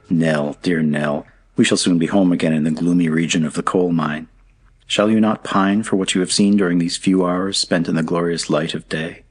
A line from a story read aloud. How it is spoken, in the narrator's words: looking earnestly at her, he said